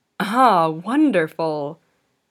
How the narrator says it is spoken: he exclaimed suddenly

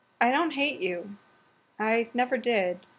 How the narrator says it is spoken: he sighed

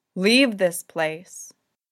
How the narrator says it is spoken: she called, and her voice rolled like thunder over snow

